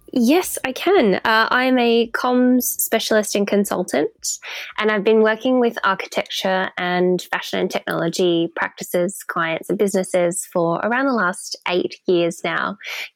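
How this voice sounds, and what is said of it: Australian accent. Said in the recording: “You can probably tell from my accent that I do not hail from the UK originally. So Melbourne in Australia is my hometown.”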